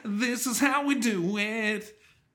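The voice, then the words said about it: Nasal, slightly falsetto voice. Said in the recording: “the nasally, a little bit falsetto”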